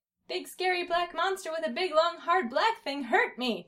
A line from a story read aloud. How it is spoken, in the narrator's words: Dill cried